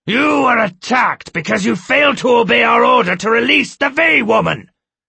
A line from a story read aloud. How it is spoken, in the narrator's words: Skemmer shouted